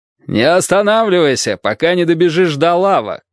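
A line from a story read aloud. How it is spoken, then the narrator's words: Shout. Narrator (Russian): крикнул я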